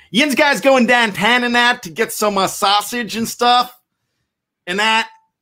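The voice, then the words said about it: Imitated Pittsburgh Yinzer accent, needs work. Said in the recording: “my Yinzer accent, my Yinzer impression ... I think my Yinzer is pretty good ... Is that a good Yinzer impression? ... it needs a little bit of work”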